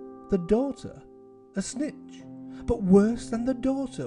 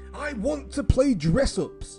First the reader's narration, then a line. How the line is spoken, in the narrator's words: she screamed